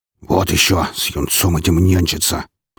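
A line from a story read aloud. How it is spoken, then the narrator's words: Grumbling. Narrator (Russian): проворчал он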